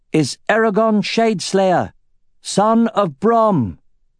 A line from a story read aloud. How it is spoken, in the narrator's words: said in a loud, clear voice